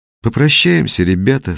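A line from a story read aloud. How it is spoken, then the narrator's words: Sad. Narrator (Russian): сказала она печально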